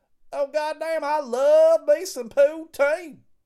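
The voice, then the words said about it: Put-on southern redneck accent. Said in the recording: “talking with a southern accent ... they talk with a redneck hillbilly accent”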